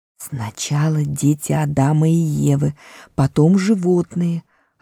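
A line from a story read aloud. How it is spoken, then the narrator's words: Whispered reply. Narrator (Russian): ответил ему шепотом мистер Бобр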